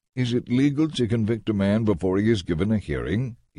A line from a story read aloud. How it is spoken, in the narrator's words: he asked